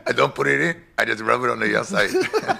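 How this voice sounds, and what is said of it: Put-on Spanish accent. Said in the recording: “That's the best Spanish accent I've ever done right there.”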